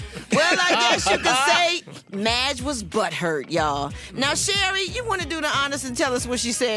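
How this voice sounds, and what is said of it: Usual voice. Nothing is said of it.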